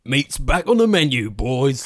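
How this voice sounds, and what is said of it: Cockney Lord of the Rings orc voice. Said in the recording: “the orcs in Lord of the Rings are like all Cockney”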